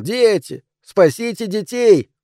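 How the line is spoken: Shouting. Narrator (Russian): кричал

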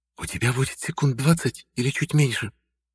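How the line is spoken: Tense whisper. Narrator (Russian): шепнула мне Изольда, тело которой было напряжено так, что чуть не искрило

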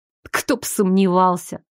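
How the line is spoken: Grim, through teeth. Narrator (Russian): мрачно процедила я

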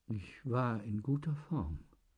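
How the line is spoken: Weak voice. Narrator (German): sagte Manuel schwach

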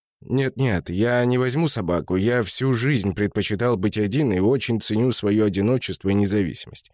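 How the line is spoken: Plain. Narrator (Russian): ответил Игорь

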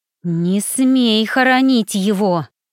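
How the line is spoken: Through gritted teeth. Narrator (Russian): цедит сквозь зубы Сима

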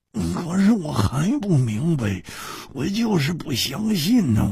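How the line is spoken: Muttered. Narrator (Chinese): 胡铁花喃喃地说

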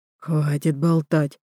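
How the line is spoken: Leader, through gritted teeth. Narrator (Russian): сквозь зубы цедит вожак

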